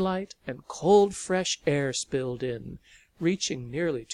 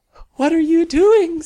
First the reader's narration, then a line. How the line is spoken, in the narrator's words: laughed and cried